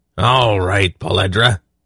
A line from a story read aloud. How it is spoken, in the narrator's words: Belden growled